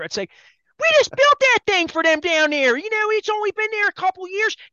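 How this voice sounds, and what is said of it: Baltimore accent. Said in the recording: “I'll do this in my Baltimore accent for you”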